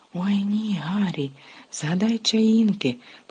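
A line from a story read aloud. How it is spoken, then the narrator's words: Whispered. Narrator (Ukrainian): прошепотіли Парваті і Лаванда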